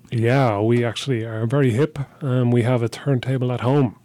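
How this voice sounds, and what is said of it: Speaks with a noticeable accent. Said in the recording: “With this accent, I can make a ton of money. ... Well, you'd be memorable.”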